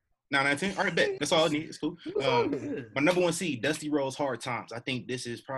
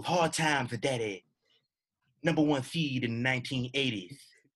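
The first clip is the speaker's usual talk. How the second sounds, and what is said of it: Dusty Rhodes impression. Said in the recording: “I'm going to try to do a Dusty Rhodes impression.”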